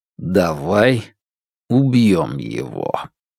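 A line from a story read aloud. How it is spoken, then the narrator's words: Slow. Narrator (Russian): Ухань медленно произнес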